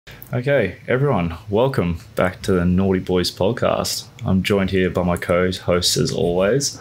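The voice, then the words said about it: Hushed, quiet speech. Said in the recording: “talking like your parents are asleep in the room next to you ... I'm just trying to be quiet”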